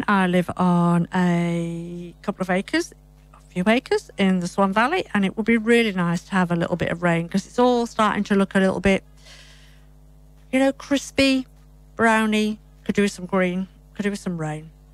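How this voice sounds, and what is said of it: British English accent. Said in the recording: “I'm British English, for those of you who haven't picked it up by my accent.”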